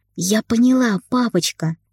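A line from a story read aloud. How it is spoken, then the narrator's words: Happy smiling voice. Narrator (Russian): радостно улыбнулась Ника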